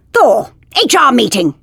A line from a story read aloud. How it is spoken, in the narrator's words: She barked at him